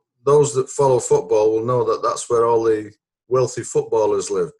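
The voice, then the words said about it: Northern English accent. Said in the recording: “that dulcet accent that you're definitely not a southerner”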